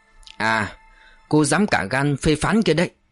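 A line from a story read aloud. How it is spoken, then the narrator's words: Cold unsmiling voice. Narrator (Vietnamese): Nụ cười tắt lịm trên môi, Trọng Minh lạnh lùng buông sóng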